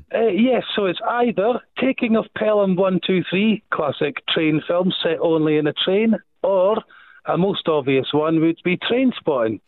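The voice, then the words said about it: Scottish accent. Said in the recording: “I can hear the Scottish accent”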